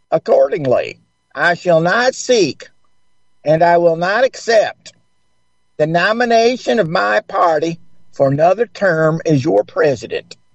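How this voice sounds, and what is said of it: Put-on accent reciting a speech. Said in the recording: “Try to add an accent. ... You did a really good job.”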